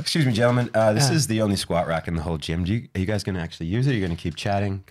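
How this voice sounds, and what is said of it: American accent. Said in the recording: “That's his American accent too”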